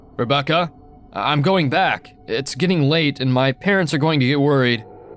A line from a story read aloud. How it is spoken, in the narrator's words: I was getting scared, so I called out